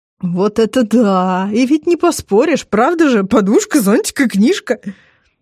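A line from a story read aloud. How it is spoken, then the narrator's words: Speaking through hard laughter. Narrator (Russian): Азамата накрывает второй волной хохота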